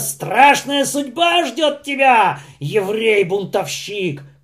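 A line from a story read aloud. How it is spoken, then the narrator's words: Shout. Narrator (Russian): крикнули ему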